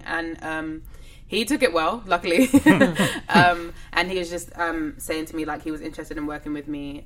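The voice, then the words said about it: English accent. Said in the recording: “you can't really hear that I'm English. My accent kind of disappears... she's not American”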